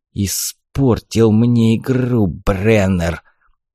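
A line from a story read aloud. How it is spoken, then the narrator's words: Hissing in face. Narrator (Russian): прошипел мне в лицо Костас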